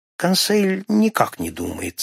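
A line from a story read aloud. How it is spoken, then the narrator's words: Calm. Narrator (Russian): спокойно ответил достойный Консель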